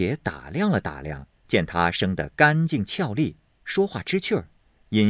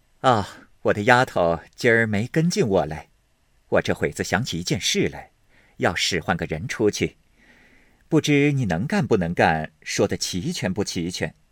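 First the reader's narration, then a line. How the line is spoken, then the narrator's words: Smiling. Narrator (Chinese): 红玉笑道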